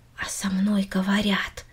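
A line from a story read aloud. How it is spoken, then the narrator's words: Quiet repetition. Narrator (Russian): тихо повторила Минори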